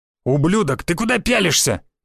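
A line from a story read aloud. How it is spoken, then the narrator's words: Shouting guard. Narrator (Russian): выкрикнул гвардеец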